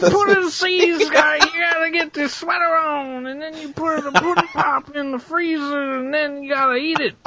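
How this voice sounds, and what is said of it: Bill Cosby impression. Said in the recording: “We love a good Bill Cosby impression ... I've never heard a better Bill Cosby”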